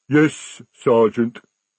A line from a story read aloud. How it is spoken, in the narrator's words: rumbled the troll